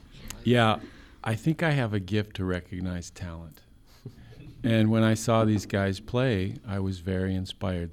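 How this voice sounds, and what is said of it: Deep, smooth podcast-style voice. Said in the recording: “That's a podcast voice.”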